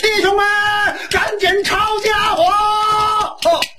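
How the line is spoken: Alarmed shout. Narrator (Chinese): 他这一嚷

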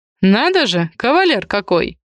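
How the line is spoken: Snorting man. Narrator (Russian): хмыкнул хозяин дома

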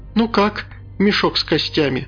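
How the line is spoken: Laughing. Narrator (Russian): Анфиса засмеялась

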